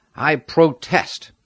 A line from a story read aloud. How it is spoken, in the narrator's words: Sigbert cried in a loud voice